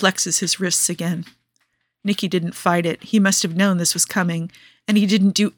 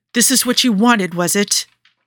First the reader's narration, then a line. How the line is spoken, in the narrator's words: Joe asks furiously